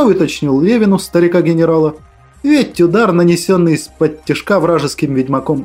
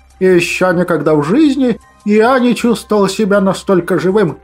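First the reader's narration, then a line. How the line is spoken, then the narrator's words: Cheerful elderly man. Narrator (Russian): Весело отозвался престарелый малефик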